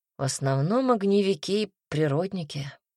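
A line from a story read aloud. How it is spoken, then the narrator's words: Sigh. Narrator (Russian): вздохнула Берлинг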